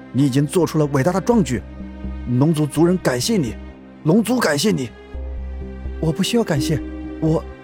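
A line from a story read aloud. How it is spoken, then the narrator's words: Loud shout. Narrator (Chinese): 龙腾高声喝道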